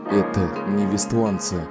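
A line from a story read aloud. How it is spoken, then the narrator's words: Muttering. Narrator (Russian): пробормотал он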